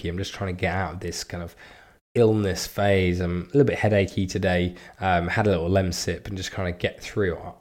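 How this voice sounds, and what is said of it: Slightly croaky voice. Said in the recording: “you can hear by my voice, it's a little bit croaky”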